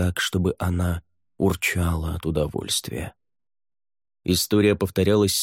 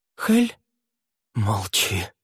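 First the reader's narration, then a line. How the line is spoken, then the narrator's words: Hiss. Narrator (Russian): прошипел он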